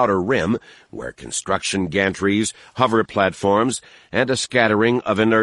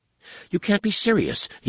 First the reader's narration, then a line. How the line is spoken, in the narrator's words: stammered